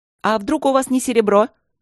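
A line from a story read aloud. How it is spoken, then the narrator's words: Shout from the studio. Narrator (Russian): крикнул кто-то из студии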